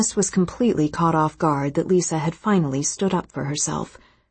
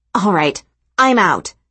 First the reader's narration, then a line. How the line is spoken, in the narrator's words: Janice said loudly